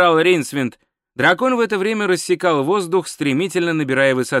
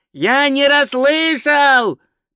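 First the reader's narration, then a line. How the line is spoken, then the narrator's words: Roared. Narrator (Russian): проревел Два Цветок, но и его голос унесло порывом ветра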